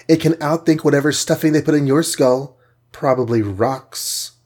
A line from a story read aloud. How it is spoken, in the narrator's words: said the Wasp sweetly